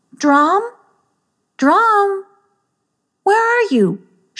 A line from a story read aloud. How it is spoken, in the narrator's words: she called out